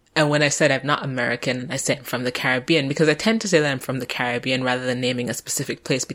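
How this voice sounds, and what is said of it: Transatlantic accent, sounds American. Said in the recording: “my accent is very transatlantic because they've thought that I was American”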